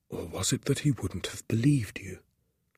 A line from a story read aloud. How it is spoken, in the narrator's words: He whispered